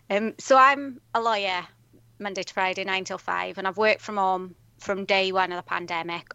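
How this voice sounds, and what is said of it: South Welsh accent. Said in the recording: “I'm originally from South Wales... I can't quite shake my accent off, although when I go home, they tell me I'm Northern.”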